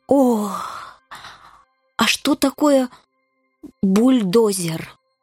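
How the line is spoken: Moaning. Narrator (Russian): застонал

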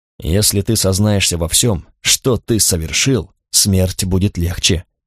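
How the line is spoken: Whispered. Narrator (Russian): шепнул Карл

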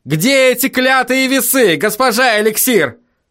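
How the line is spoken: Desperate yell. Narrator (Russian): В отчаянии заорал Вильям

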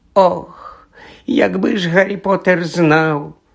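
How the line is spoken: Hoarse, tearful. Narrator (Ukrainian): прохрипів Доббі, і на його пошарпану наволочку потекли сльози

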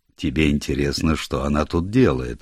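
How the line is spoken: Plain. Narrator (Russian): спросил лорд Мейфилд

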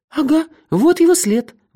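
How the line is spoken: Exclaiming. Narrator (Russian): воскликнула она

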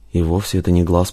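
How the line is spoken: Mutter. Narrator (Russian): пробормотал Рузаев

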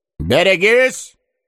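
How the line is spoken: Commanding shout. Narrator (Russian): начальственно крикнул кто-то

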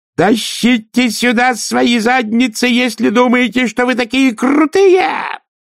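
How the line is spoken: Wild, strange-voiced scream. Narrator (Russian): завопил он не своим голосом

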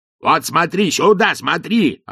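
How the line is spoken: Coachman yelling. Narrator (Russian): орал кучер

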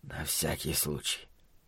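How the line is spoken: Whisper. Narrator (Russian): шепотом сообщил Ллойд Хендрит

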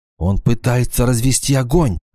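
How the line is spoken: Whisper. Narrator (Russian): шепнула Вала

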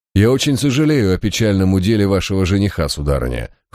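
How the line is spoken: Said coldly. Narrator (Russian): холодно произнес я

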